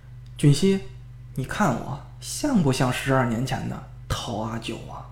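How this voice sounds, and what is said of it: Low, cold voice. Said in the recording (Chinese): “冷冷地笑了……用低低的声音说道”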